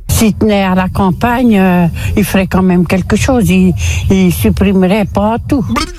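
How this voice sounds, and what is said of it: Burgundy Morvan regional French accent. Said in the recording (French): “Bourguignon, l'accent du Morvan, précisément, l'accent Morvandio”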